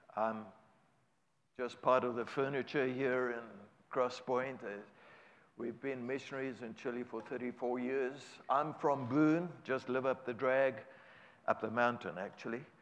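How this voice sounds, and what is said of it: South African accent. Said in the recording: “my accent is not local. That's from South Africa. ... 34 years of speaking Spanish does not help the English accent to become Americanese.”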